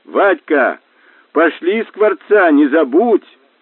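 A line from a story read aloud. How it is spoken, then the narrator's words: Yell. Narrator (Russian): Заорал вслед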